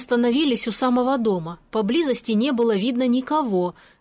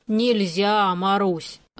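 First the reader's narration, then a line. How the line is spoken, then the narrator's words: Sigh. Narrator (Russian): вздохнул дядя Ваня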